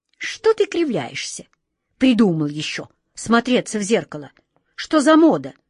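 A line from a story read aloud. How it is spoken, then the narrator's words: Angry shout. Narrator (Russian): сердито прикрикнул на него волшебник Алеша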